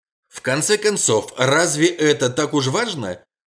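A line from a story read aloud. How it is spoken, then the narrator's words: Snide laughing exclamation. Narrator (Russian): воскликнул прокурор, ехидно посмеиваясь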